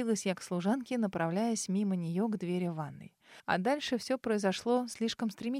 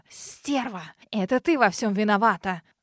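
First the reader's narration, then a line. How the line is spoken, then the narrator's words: Venomous hiss. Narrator (Russian): Раздалось поистине змеиное шипение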